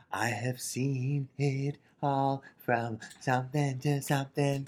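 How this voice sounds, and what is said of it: Imitates another person's voice. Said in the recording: “That was a good Bjork impression.”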